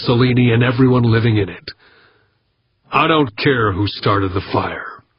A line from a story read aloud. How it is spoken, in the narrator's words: he said coldly